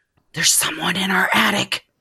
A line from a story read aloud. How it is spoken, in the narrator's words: he whispered